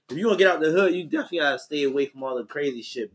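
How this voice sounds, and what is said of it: Baltimore inner city accent. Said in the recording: “I can hear your accent ... That's a inner city accent ... it's Baltimore ... Baltimore accent is just Baltimore”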